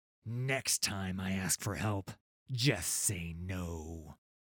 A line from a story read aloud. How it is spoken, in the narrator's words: Gangplank growled